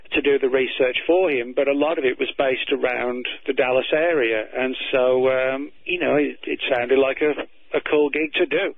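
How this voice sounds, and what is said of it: British accent, somewhat faded. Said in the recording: “I hear your British accent is fading a bit.”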